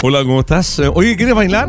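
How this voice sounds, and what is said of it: Put-on radio announcer voice. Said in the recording (Spanish): “Ponen voz de locutor.”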